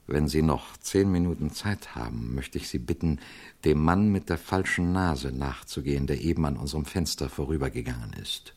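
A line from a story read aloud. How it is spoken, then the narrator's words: Quiet. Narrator (German): sagte er leise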